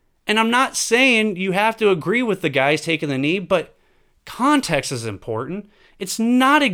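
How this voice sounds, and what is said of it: Usual voice. Nothing is said of it.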